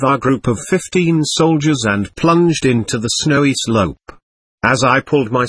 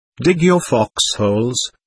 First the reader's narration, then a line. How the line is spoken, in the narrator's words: the Feldwebel ordered, lowering his voice as if the other side could hear us